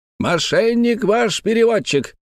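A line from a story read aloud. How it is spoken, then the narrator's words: Shouting. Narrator (Russian): кричал Антифер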